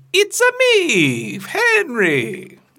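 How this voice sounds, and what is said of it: Mario-style Italian cartoon voice. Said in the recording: “I feel like I should try the voice, too.”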